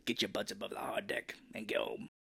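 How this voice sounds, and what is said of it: Poor imitation of another person's voice. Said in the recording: “That's a terrible Michael Ironside impression.”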